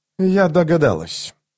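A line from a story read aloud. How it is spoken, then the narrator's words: Dry remark. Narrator (Russian): сухо заметила Лорн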